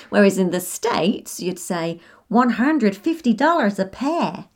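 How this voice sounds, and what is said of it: Put-on American accent. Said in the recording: “Sorry about the accent”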